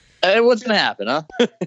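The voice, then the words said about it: Put-on Italian accent. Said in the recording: “Why did I sound Italian right there?”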